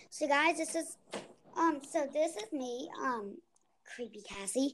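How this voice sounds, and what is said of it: Low character voice. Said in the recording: “I usually talk in a low voice like this”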